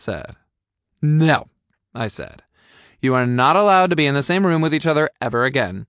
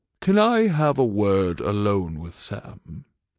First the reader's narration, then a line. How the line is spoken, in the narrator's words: Morgan asked quietly